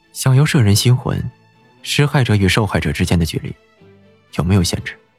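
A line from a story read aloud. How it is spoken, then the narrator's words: Hushed, low voice. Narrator (Chinese): 莫连锦压低了声音问道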